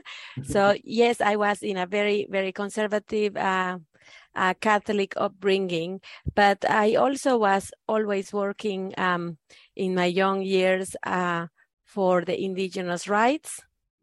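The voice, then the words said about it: Mexican-accented English. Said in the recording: “raised in Mexican Catholic family ... I'm sure you have picked my accent”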